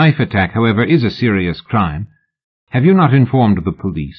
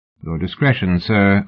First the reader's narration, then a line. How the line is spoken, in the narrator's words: Oliphant said evenly